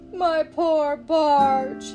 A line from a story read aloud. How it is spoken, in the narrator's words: sobbed